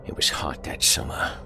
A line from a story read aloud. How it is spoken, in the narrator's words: he wheezed